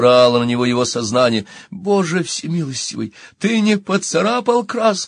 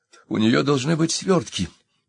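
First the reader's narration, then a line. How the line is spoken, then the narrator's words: Indistinct inner mumble. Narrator (Russian): невнятно пробормотало его сознание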